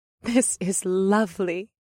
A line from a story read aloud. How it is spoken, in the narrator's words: the elven woman breathed as she giggled